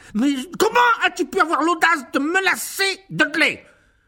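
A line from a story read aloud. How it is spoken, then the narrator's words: Roaring, pounding the table. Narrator (French): rugit l'oncle Vernon en martelant la table de son poing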